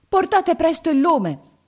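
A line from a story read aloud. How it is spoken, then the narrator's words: Shout. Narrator (Italian): gridò la sua serva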